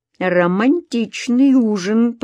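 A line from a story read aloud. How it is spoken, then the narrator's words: Purring. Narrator (Russian): промурлыкала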